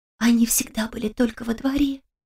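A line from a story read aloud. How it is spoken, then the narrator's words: Whisper. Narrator (Russian): прошептала Кристина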